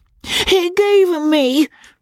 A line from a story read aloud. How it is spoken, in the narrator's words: she cried